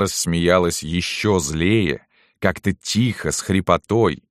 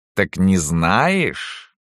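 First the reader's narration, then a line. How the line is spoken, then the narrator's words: Hissing question. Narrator (Russian): спросила с каким-то шипением в голосе Салтычиха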